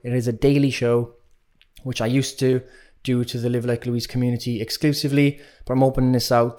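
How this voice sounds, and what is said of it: Strong regional accent. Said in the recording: “if you haven't understood a word I've said because of my accent”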